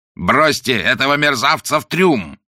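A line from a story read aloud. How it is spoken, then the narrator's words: Roaring. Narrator (Russian): проревел он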